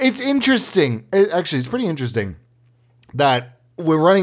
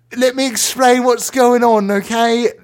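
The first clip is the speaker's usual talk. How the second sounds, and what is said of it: Weird put-on accent. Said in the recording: “everybody has a weird accent”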